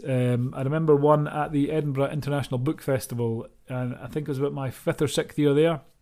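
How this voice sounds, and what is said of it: Scottish accent. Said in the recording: “your Scottish accent.”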